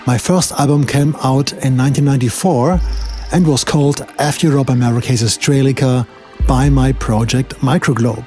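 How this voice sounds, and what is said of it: German accent in English. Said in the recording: “I live and work in Berlin, Germany, as some of you might recognize from my accent”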